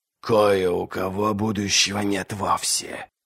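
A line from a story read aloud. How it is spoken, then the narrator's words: Scary low mumble. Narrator (Russian): страшным низким голосом пробубнила Магги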